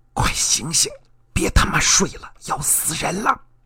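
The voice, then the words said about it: Very quiet whisper. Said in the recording (Chinese): “用最小的声音说”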